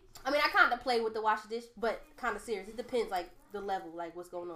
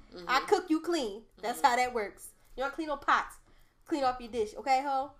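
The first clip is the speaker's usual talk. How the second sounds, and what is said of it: Put-on New Orleans accent. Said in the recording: “I'm all using the NOLA accent just now”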